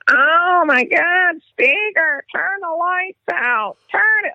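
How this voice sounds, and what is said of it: Impression of a former teammate. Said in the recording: “That's a great impression right there.”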